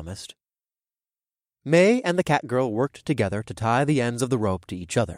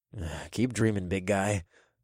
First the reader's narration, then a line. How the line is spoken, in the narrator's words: I murmured